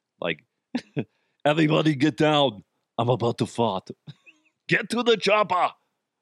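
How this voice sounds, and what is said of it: Poor Arnold Schwarzenegger impression. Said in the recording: “My Arnold sucks. I am not a good Arnold Schwarzenegger impersonator.”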